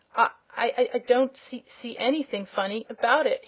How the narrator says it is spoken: he stammered

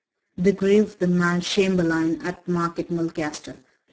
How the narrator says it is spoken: replied Spargo

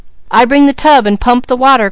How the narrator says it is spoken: cried Mary

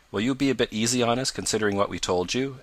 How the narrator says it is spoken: asked Curdie

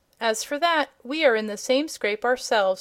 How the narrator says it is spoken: answered Dorothy cheerfully

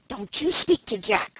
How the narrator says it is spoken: whispered Tommy

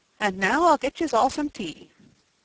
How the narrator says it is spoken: said our hostess kindly

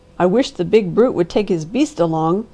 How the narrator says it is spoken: growled Mr

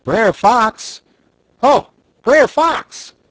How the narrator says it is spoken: Brer Rabbit holler out

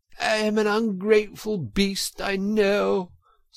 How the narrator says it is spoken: sobbed Toad, shedding bitter tears

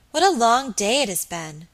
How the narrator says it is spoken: exclaimed Alicia, as if taking up the burden of my lady's thoughts

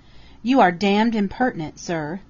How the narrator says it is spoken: Judge Marshall shouted, the ends of his waxed gray mustache trembling with anger

